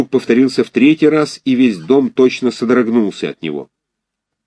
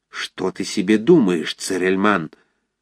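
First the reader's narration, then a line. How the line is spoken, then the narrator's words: Frightened angry whisper. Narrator (Russian): с испугом и гневом зашептала, щекоча его ухо горячим дыханием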